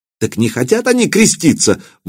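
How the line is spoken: Exclaimed. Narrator (Russian): воскликнул епископ

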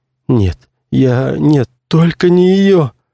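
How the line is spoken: Moaned. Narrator (Russian): простонал актер

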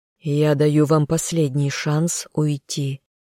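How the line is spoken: Quiet but menacing. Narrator (Russian): негромко, но от этого не менее пугающе сказал спаситель

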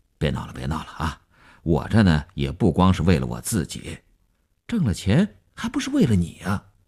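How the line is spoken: Brief laugh, checking himself. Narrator (Chinese): 刘文庆笑了一下，及时收住说

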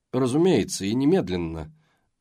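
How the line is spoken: Gloomy. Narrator (Russian): мрачно ответил Таннер

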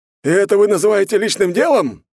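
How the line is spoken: Prince's strange squeal. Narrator (Russian): странно взвизгнул светлейший князь

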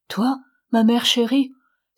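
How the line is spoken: Exclaimed. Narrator (French): s'écria Olympe

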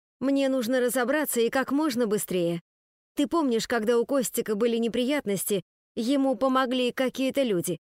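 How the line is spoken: Plain. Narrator (Russian): Спросила Ника

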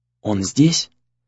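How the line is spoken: Whispered question. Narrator (Russian): почему-то шепотом спросила Имари

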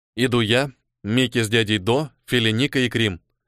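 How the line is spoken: Stern voice. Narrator (Russian): строго произнес Ниэль

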